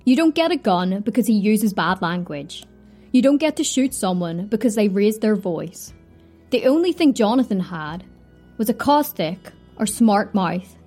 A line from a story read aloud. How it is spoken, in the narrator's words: said Prosecutor Walton